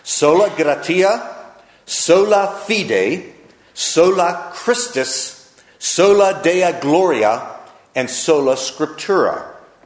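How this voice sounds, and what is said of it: Put-on Latin accent. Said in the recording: “I'm going to do my best to do my best Latin accent that I can right here.”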